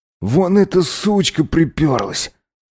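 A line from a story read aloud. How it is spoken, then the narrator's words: Cold, through teeth. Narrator (Russian): холодно процедил Макс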